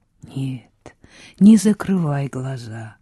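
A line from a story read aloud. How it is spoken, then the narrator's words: Whisper. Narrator (Russian): прошептал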